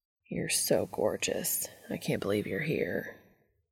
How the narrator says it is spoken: Cass murmurs

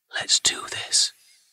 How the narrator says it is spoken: she whispered

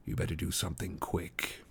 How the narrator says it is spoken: whispered Strider in his ear

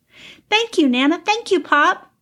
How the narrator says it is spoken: Cal said excitedly

